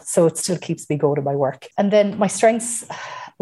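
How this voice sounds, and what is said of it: Irish accent. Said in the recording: “having a Mayo accent ... having an Irish accent”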